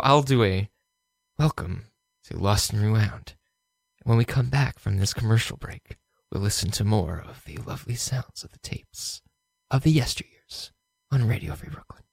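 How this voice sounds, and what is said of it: Smooth public radio announcer voice. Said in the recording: “You have a very much an NPR voice ... You have an NPR voice.”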